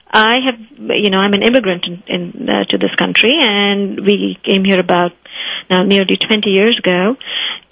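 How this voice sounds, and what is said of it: Slight foreign accent. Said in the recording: “a little hint of an accent in my voice”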